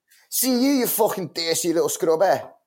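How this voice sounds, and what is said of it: Put-on Liverpudlian accent. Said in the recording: “I pride myself on one of the best Liverpudlian accents... I'm really good at it... I love the Liverpool accent”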